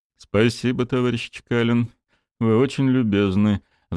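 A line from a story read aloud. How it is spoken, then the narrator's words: Sighing. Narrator (Russian): вздохнул эксперт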